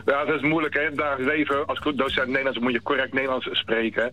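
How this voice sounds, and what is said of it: Westlands Dutch regional accent. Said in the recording (Dutch): “dan weet je dat je een Westlander aan de telefoon hebt ... ik hoor het al. Met jouw Westlands accent is helemaal niks mis.”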